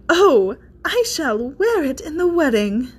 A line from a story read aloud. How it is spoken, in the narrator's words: exclaimed